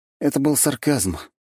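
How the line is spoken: Sighing young man. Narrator (Russian): парень вздохнул

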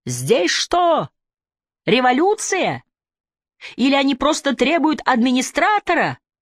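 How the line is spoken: Shouted into ear. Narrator (Russian): я прокричал в его ухо

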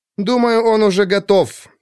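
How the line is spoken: Irritated. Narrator (Russian): ответила раздраженно

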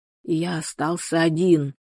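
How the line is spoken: Whispered. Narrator (Russian): прошептал он

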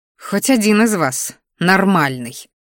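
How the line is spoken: Grumbling. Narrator (Russian): буркнула Мелисса

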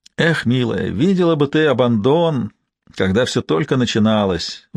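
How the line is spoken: Sighing. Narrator (Russian): вздохнул ее посетитель

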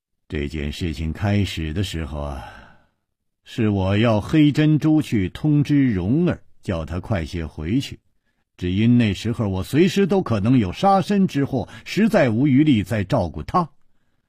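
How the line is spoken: Sigh. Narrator (Chinese): 楚留香叹了一口气

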